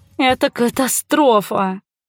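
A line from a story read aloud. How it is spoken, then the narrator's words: Moan. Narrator (Russian): застонала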